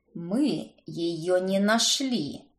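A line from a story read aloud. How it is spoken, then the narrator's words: Through gritted teeth. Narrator (Russian): процедил он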